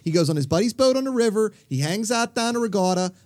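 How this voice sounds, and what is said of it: Pittsburgh accent. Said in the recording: “now you might not be the man of my dreams with that accent ... where did the Pittsburgh accent come from? Did like someone from England fall off a horse and hit a rock?”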